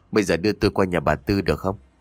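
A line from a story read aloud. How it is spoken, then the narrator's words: Soft voice. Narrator (Vietnamese): khẽ nói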